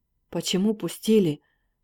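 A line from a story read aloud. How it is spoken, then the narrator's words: Hoarse, angry. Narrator (Russian): охрипшим голосом сердито говорил дежурный командир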